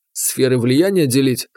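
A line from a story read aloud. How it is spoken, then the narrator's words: Snorting. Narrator (Russian): хмыкнул я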